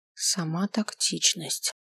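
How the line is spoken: Whispered remark. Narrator (Russian): заметил я шепотом

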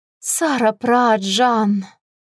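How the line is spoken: Breathed out. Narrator (Russian): выдохнула я

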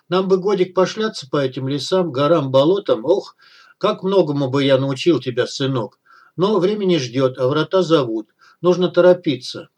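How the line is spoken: Grumbling mutter. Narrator (Russian): пробурчал он

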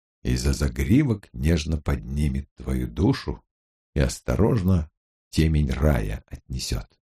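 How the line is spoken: Whisper. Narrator (Russian): прошептал Гамаш

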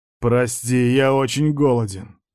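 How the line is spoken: Hungry growl. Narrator (Russian): прорычал я

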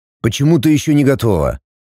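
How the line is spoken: Displeased growl. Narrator (Russian): недовольно прорычал Варл

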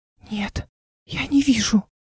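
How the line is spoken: Whisper. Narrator (Russian): прошептала Мира

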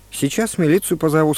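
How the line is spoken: Calm. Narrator (Russian): сказал спокойно

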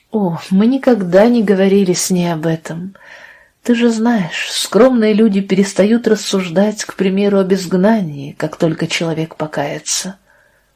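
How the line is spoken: Plain. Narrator (Russian): ответила тетя Лиззи

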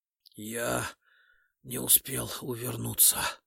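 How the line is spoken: Hoarse, wounded. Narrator (Russian): просипел раненый

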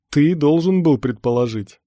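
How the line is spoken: Scoffing snort. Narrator (Russian): хмыкнул Эверест

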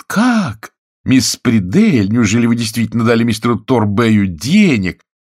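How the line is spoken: Feigned astonished exclamation. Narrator (Russian): мисс Колеридж, сделанным изумлением, воскликнет

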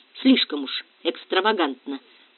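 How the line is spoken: Whisper in the ear. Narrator (Russian): прошептал Диего на ухо Пинегину

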